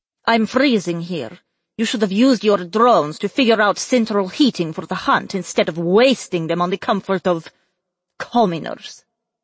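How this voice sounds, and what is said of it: Cheesy Transylvanian vampire accent. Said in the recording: “Her accent reminded Ed of Transylvanian vampires in cheesy movies”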